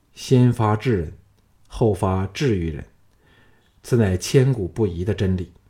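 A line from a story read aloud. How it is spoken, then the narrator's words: Calm, indifferent. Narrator (Chinese): 项少龙淡淡的说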